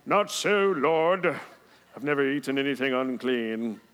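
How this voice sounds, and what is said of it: Put-on British accent, pious tone. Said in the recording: “That's the religious voice. The religious voice always has a British accent.”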